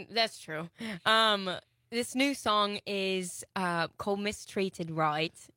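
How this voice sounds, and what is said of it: Put-on British-Australian accent. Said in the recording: “this is totally an Australian accent ... You can shelf the British accent.”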